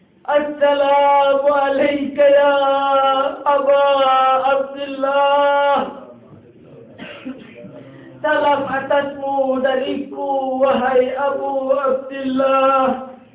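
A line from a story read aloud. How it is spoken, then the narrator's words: Faint, failing voice. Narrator (Indonesian): Dengan sisa suara beliau bersabda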